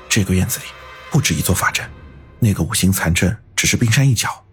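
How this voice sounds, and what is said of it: Lowered, hushed voice. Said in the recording (Chinese): “压低声音说道”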